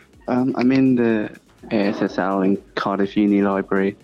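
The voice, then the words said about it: Quiet hushed library voice. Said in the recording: “I have to be a bit quiet ... You're doing that quiet voice. ... Quiet library voice.”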